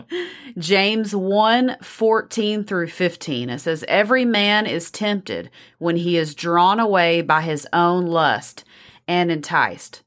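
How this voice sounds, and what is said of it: Texas accent. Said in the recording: “She's from Texas. I love her accent.”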